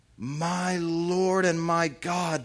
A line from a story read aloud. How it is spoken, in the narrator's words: Thomas exclaimed